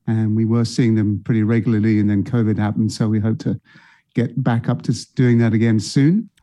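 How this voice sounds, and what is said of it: British, non-American accent. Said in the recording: “as people could tell from ... accent, he's not originally from the U.S. ... So you brought a Brit”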